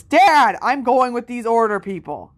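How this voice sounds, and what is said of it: Loud voice. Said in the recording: “in a loud voice.”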